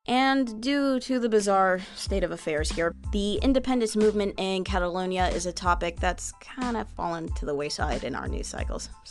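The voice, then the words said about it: American English accent. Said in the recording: “as you can tell by my accent, I'm from the US.”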